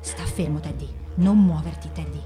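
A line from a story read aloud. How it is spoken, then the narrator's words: Helpless murmur. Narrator (Italian): non poteva fare nulla, non poteva che mormorare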